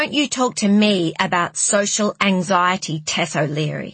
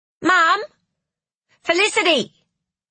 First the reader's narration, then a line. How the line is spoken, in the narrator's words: shouted Liam